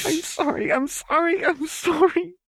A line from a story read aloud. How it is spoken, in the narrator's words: Jinx sobbed the words out, blubbering miserably